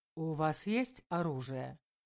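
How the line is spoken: Plain. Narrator (Russian): спросил Белозеров

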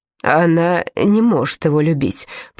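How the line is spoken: Muttering, self-persuading. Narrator (Russian): пробормотал король, будто бы стараясь убедить в этом самого себя

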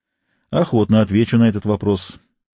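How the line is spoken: Plain. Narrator (Russian): сказал капитан Немо

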